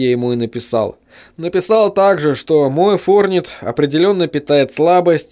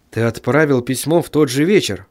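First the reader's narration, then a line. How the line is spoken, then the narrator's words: Mutter. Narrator (Russian): пробормотал писатель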